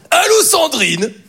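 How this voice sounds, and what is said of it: Imitation of Jean-Luc Reichmann. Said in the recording (French): “il aime bien faire des imitations. Il est sûr qu'il sait bien faire Jean-Luc Reichmann”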